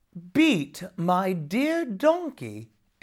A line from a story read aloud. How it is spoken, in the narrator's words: exclaimed Jamie